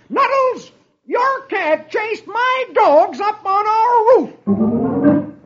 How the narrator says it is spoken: Dagwood hollers

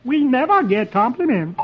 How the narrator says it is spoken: the March Hare exclaims

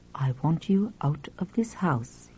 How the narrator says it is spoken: he said quietly

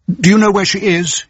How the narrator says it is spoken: he pleaded

